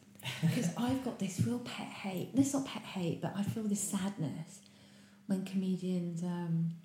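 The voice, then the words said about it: Whispered speech. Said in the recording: “I'm going to whisper this.”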